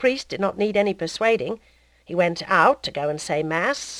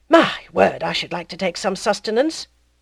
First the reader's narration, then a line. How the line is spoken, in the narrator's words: the druggist, who could not hold out any longer, sighed